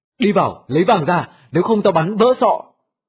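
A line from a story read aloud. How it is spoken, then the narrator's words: Shouted threat. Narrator (Vietnamese): Hắn hét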